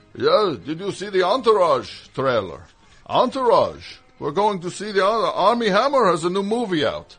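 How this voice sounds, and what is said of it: Vague generic foreign accent. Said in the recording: “Some amorphous accent I'm doing. ... Just foreign. ... that voice I just did.”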